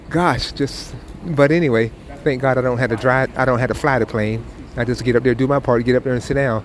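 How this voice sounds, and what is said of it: Tired, weary voice. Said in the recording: “You probably can hear it in my voice that, man, whew, we're a little tired right now.”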